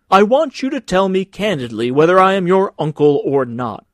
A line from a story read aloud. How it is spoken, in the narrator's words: cried the senator